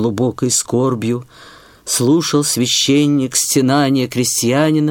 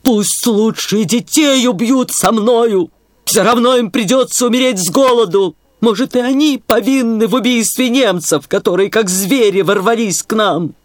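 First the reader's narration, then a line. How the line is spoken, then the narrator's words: Shouted again. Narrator (Russian): опять закричал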